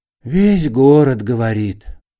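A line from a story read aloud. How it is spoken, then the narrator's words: Sigh. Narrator (Russian): вздохнул другой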